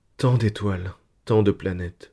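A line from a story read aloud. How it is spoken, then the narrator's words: Dreamy sigh. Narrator (French): soupira Gérodine, plongée dans ses pensées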